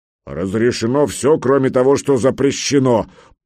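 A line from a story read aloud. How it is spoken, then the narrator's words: Old giant booming. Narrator (Russian): прогудел седой великан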